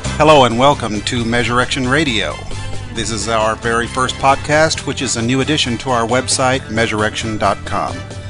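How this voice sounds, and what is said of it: East Texas hillbilly accent. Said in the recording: “my hillbilly East Texas accent”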